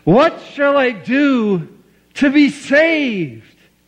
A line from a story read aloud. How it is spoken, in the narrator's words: he cried aloud